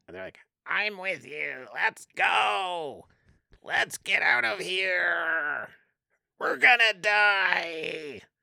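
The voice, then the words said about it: 80s cartoon villain voice. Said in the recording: “that's a really good 80s villain voice. Like 80s cartoon villain voice?”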